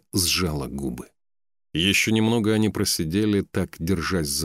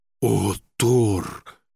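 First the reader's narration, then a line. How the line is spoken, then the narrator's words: Sighing loud whisper. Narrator (Russian): Торгни тяжело вздохнул, громко прошептал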